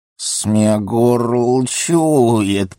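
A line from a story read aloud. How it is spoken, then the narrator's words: Disgusted angry hiss. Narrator (Russian): прошипел он с отвращением и злобой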